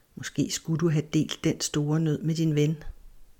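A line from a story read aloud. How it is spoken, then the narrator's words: Small inner whisper. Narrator (Danish): en lille stemme inden i hende begyndte at hviske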